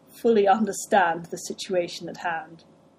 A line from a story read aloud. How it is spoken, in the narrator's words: chuckled